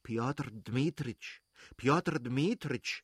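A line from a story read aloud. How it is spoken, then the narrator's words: Pleading voice. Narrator (German): sagte mit flehentlicher Stimme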